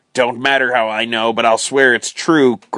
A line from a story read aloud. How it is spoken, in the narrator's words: growled Jerry